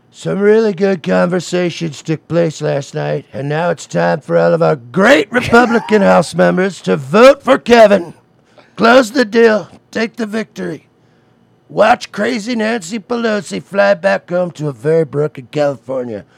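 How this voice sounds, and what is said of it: Imitates another person's voice. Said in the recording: “you do the Trump voice”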